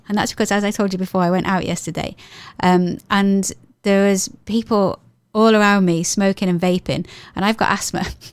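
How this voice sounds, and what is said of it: Voice lower than usual. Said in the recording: “my voice is lower than normal ... it's obviously had an impact on my voice ... a bit of a lower level than usual”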